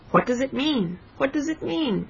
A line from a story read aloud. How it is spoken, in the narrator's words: he cried